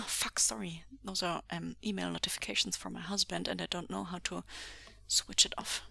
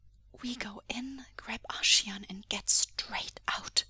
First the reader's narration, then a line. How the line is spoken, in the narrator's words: breathed